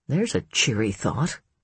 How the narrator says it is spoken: Ellen mumbled

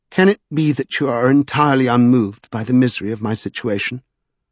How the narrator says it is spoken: said in a wondering tone

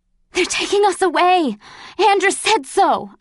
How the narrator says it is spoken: I panted

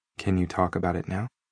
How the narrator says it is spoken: I asked, as gently as I could

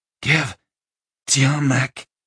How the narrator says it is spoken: Denevan rasped

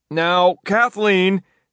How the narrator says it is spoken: yelled his father from the other end of the apartment

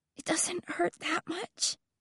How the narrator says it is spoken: whisper

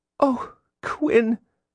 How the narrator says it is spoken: Jillian said sadly

